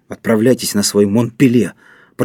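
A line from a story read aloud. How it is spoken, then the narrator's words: Muttering. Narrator (Russian): пробормотал капитан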